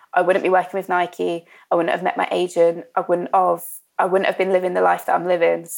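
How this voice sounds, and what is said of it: Emotional, choked-up speech. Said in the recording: “sorry, I'm getting a bit emotional over it”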